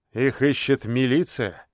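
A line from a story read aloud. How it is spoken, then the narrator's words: Grim joke. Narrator (Russian): мрачно пошутил Песняков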